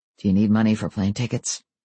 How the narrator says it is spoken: his voice gentle, he asked

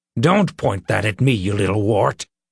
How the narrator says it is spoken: he snapped

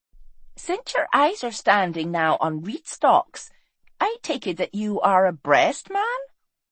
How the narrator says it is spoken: she said with a laugh

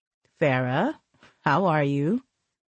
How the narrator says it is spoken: Randy asked calmly

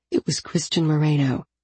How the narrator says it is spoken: I said quietly

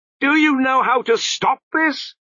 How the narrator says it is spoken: screamed

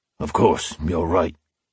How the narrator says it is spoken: he said gruffly

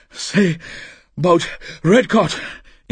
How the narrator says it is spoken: Inchebi panted

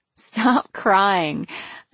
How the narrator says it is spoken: I told her with a laugh

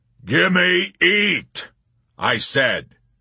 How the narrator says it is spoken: ordered loudly in harsh tones that rumbled ominously like claps of distant thunder

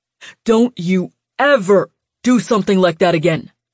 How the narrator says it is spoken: he barked

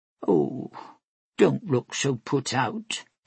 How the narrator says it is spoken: Ectrasia murmured

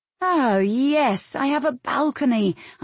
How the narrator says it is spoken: I drawled

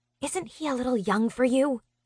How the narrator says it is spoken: I whisper

